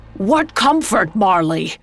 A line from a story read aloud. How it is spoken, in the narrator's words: Scrooge shouting over the howling wind